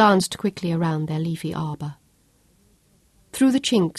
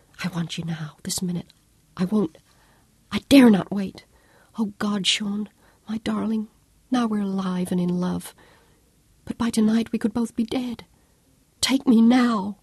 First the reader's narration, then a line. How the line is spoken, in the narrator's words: she demanded breathlessly